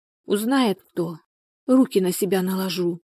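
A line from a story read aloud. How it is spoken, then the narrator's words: Quiet speech. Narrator (Russian): тихо сказала Людмила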